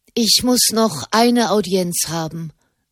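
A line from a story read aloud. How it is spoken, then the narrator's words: Plain. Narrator (German): sagte sie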